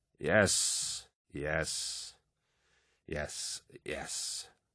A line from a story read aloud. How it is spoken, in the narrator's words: Carcassi slurred